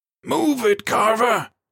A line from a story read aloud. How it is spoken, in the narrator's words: screamed, panic rising at his teammate's situation